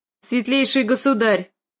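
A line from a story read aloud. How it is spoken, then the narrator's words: Sharp reminder. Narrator (Russian): резко напомнил он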